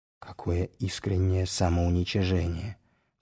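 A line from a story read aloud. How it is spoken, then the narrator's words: Whispered. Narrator (Russian): все тем же шепотом выговорил Загорецкий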